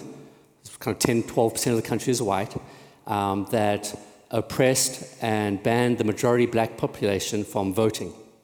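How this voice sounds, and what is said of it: South African accent. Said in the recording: “as you can tell from the accent, I'm South African.”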